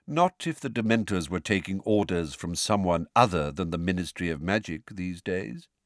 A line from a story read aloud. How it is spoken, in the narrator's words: said Dumbledore calmly